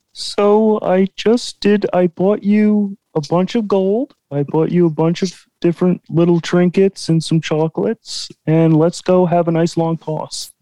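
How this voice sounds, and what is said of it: Kermit the Frog-like voice. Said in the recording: “his impression ... It's kind of sounds like Kermit the Frog a little bit.”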